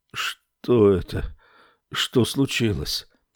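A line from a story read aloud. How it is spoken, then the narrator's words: Muffled, almost normal voice. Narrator (Russian): глухо спросил он почти нормальным голосом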